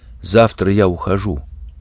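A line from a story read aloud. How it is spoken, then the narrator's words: Quiet. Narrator (Russian): Ящик сказал негромко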